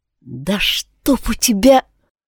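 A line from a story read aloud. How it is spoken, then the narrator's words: Whisper through clenched teeth. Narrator (Russian): прошептала сквозь зубы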